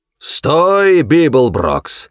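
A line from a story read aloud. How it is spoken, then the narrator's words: Amplified roar. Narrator (Russian): взревел усиленный громкоговорителем голос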